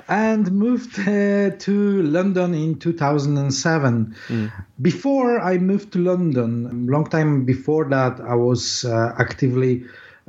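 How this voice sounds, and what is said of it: Polish accent. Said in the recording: “I was born in Poland, as you can hear my accent probably.”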